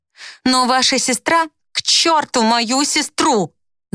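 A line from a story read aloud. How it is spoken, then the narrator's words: Yelled. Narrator (Russian): Заорала я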